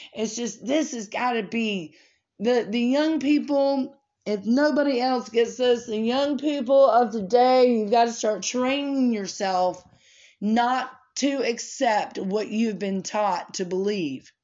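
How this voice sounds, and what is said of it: Loud, raised, impassioned speaking voice. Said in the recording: “I'm not yelling because I'm angry”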